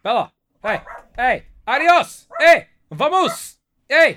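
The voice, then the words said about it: Yelling loudly. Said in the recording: “I'm yelling”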